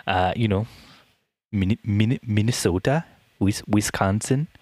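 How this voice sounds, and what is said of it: Poor attempt at Midwestern accent. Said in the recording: “Am I doing that accent right? ... No, not at all. That's more of a Minnesota.”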